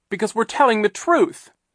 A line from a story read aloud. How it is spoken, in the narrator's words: Klaus cried